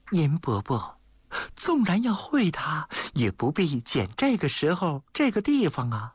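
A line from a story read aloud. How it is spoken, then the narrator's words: Sighing. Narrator (Chinese): 谢小玉叹了口气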